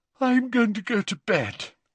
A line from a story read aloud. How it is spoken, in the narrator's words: yawned Ginny